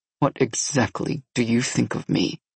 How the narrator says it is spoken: He asked coldly

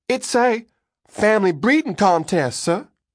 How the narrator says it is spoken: called out

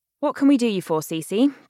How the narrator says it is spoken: Bea asks through gritted teeth

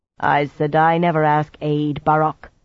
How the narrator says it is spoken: she growled

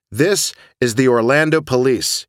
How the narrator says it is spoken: he shouted

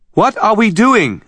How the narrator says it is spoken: Anna shouted

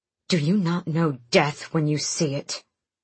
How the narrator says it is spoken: She hissed, low and vicious

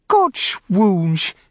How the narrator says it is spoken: she cried with lisping, spittle-sprayed laughter

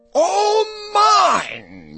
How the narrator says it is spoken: Yertle cried

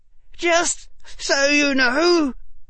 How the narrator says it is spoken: Harry said through gritted teeth

